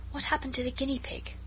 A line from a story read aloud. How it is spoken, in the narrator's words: Alice whispered